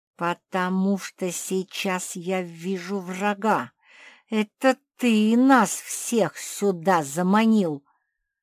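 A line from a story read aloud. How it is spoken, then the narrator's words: Spoken through gritted teeth. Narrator (Russian): сквозь зубы процедила Пагль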